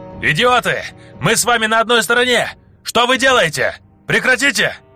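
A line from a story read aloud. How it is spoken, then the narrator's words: Yelling. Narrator (Russian): вопил один из группы Гильва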